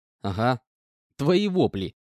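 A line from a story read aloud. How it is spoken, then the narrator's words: Chuckling reply. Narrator (Russian): хохотнув, ответил я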